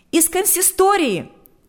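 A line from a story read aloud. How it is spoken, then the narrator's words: Shout. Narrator (Russian): выкрикнула она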